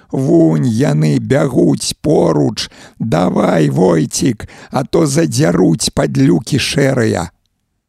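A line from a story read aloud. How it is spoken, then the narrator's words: Frantic, unnatural yelling. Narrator (Belarusian): Юзік не сваім голасам гарлаў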